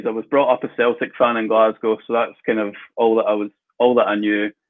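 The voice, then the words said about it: Scottish accent. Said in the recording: “as you'll be able to, all our viewers be able to tell from the accent, you're of course a Scottish of nature”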